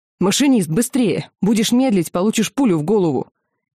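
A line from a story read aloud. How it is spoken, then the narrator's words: Shout. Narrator (Russian): она крикнула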